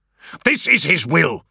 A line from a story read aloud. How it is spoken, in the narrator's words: snapped Medjuson